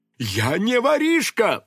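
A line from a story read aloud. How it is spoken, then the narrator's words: Indignant exclamation. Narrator (Russian): возмущенно воскликнул задержанный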